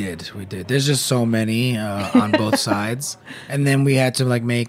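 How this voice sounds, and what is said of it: Usual voice. Nothing is said of it.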